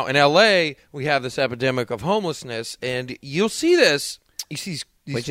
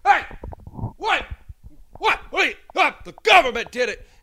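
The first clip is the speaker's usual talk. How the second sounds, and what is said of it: Imitation of a ranting homeless person. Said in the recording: “A pretty good homeless impression.”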